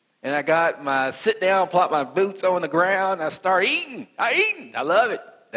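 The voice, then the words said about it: Country West Virginia accent. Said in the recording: “I'm country ... I'm from West Virginia ... That's my country accent. And it's a real accent. It's not fake. That's what I really talk like.”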